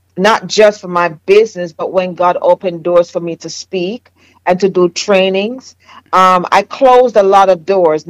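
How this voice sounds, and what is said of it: Jamaican accent. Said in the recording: “my Jamaican accent”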